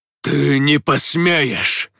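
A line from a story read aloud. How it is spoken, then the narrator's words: Angry growl. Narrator (Russian): гневно прорычал Ахимот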